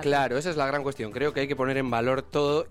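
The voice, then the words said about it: Spanish accent from Spain. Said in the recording (Spanish): “con el acento que tiene ... gente de ese continente que nos conquistó”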